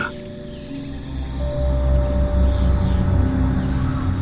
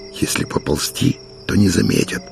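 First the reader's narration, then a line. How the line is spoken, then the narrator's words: Whisper. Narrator (Russian): шепнул Матвей Калине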